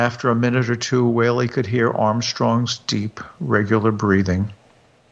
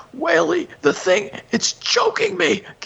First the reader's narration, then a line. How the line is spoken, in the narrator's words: gasped Armstrong in a rattling voice